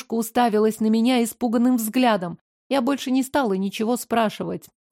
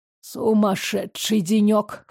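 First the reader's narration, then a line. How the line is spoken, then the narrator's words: Grunting chuckle. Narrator (Russian): хмыкнул он с кряхтением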